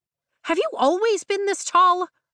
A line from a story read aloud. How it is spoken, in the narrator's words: I blurt the first thing that comes to mind